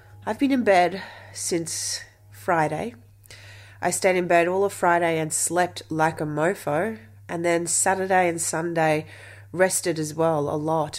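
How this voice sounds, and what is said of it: Unwell, tired-sounding voice. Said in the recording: “you can probably hear that my voice is a little bit different today... I've realized that I'm still knackered”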